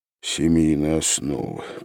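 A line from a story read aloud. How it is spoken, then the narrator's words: Mutter. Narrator (Russian): пробормотал он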